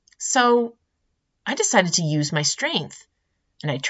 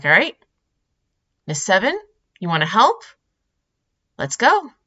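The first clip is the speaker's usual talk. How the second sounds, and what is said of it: Upbeat encouraging teacher voice. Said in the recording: “teacher voice ... in the positive, uplifting, yeah, you can do it kind of way”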